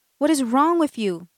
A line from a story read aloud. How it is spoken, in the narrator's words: she yells at him